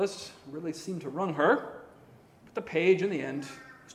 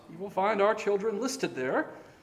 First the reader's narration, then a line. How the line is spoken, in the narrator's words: Robin sweetly informed